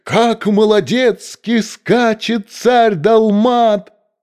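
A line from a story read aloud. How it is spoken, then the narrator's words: Courtiers shouting. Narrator (Russian): Все придворные кричали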